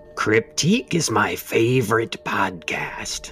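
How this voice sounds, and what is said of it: Pirate-like put-on voice. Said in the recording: “sounded like a pirate”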